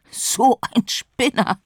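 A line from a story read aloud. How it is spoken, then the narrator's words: Calf laughing. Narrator (German): lachte das Kalb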